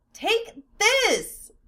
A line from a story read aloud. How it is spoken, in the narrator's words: Phileas shrieked